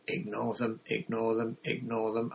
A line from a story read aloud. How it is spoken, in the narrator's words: under her breath